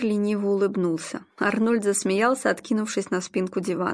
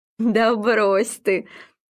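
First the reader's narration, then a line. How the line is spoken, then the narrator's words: Laughing dismissively. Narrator (Russian): Арнольд махнул рукой, не переставая смеяться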